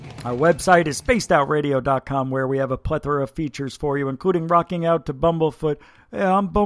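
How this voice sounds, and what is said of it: Usual voice. Nothing is said of it.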